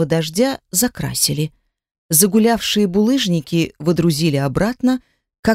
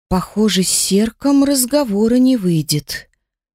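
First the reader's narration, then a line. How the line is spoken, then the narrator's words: Sigh. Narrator (Russian): вздохнула Элла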